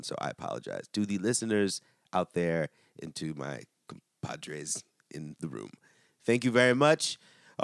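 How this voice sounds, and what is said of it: Nasal, congested voice. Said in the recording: “I sound very nasally.”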